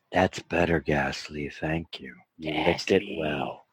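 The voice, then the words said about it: Disturbing character voice. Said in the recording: “I fully approve of this character voice ... It's a little disturbing.”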